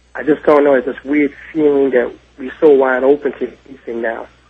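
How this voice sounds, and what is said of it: New York City accent. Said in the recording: “if I'm listening carefully enough to your accent, I detect you're probably from New York City.”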